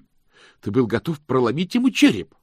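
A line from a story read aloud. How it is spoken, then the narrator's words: Exclaiming. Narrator (Russian): воскликнул мокрец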